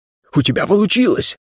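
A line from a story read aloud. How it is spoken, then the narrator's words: Exclamation. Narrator (Russian): воскликнул смельчак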